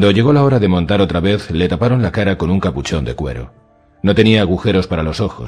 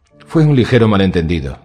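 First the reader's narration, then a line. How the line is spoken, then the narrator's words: Plain. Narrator (Spanish): dijo el perro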